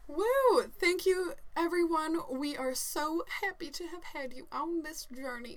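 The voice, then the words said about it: Put-on Southern accent. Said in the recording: “Why do I talk like a Southerner? ... You always get Southern at the end.”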